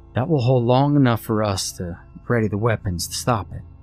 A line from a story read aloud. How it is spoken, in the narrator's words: he said calmly